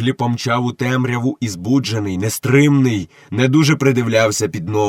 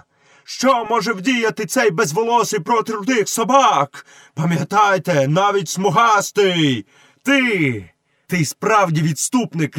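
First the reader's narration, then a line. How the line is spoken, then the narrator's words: Shouting. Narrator (Ukrainian): крикнув Мауглі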